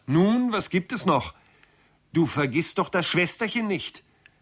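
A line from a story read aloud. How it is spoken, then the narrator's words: Calling from afar. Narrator (German): rief ihm Arthur vom Fenster aus nach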